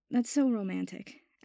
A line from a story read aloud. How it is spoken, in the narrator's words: Abbott said with a sigh